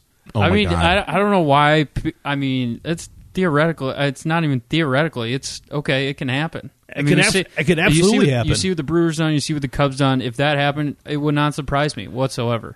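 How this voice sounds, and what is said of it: Impression of Bo. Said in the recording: “Is that a pretty good Bo impression or not? ... It's not bad.”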